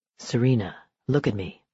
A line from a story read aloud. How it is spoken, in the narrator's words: he said gently